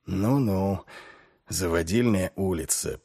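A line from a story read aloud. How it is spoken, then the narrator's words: Muttering. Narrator (Russian): пробормотал Ваймс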